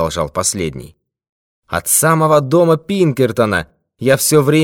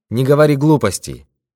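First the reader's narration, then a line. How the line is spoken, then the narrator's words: Calm objection. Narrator (Russian): спокойно возразил Боб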